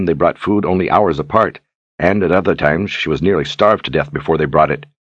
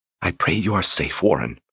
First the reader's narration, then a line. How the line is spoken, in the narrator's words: she whispered to the walls